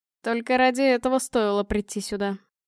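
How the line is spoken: Sigh. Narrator (Russian): вздохнул Павел

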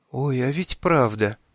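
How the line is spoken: Horrified whisper. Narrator (Russian): с ужасом прошептала Ули

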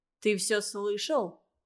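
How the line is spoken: Menacing question. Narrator (Russian): грозно спросил Андрей

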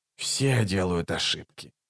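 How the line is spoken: Mutter. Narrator (Russian): пробормотал Раллик

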